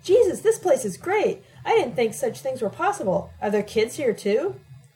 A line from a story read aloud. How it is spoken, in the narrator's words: Alec exclaimed